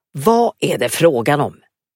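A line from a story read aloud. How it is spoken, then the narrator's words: Said sternly. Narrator (Swedish): sa strängt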